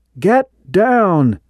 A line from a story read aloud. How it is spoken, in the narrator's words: Corey shouted